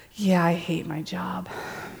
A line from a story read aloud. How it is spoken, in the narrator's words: sighs and he says